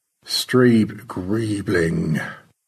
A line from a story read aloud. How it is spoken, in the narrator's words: Stanley murmured